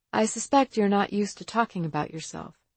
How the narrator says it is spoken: said

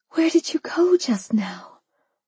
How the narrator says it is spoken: whispered

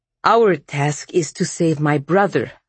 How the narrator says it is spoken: Vasya said sharply

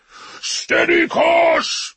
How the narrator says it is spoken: bellowed Russ, raging at the ruin around him

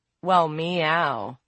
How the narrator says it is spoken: April purred

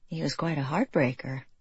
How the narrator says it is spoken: she murmured

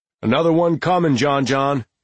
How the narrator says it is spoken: the stocky man hollered across the room

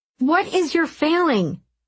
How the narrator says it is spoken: He shouted

